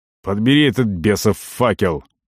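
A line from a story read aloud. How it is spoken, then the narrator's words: Barked order. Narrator (Russian): рявкнул Арон мальчишке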